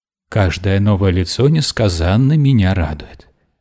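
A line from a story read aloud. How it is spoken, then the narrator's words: Cooing. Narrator (Russian): проворковала дама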